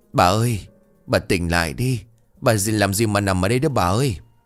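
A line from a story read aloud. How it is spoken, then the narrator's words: Old man's desperate calling. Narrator (Vietnamese): Ông Tư miệng không ngớt gọi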